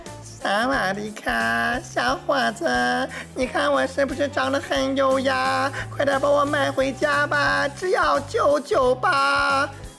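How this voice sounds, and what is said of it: Put-on Thai accent. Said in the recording (Chinese): “来自泰国的暹罗猫呢，一定是满口的泰国口音”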